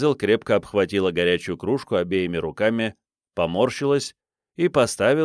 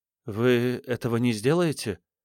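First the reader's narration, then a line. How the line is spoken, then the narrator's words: Trembling question. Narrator (Russian): спросила дрожащим голосом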